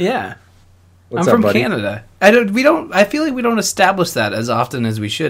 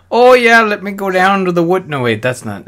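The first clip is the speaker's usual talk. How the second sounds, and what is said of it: Weak attempt at Canadian accent. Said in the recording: “Canadian. You can't even do your own accent.”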